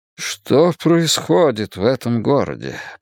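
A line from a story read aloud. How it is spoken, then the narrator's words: Muttered. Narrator (Russian): пробормотал мэр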